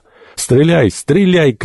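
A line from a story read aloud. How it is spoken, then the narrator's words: Shout. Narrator (Russian): крикнул доктор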